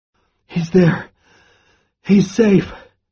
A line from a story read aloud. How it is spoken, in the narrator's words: Charlie gasps